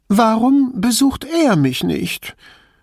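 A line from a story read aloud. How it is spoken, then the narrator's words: Whining, meant to sound angry. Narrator (German): Es sollte verärgert klingen, klang aber nur jammernd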